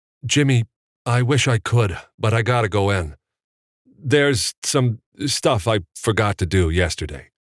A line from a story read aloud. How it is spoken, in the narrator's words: Evan stammered